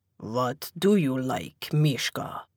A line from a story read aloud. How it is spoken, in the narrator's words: The deep, heavily accented voice was so close I could practically feel it rumble across my skin